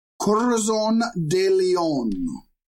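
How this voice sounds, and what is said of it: Put-on Spanish accent. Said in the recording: “I'm saying that with a Spanish accent because it's a Spanish name.”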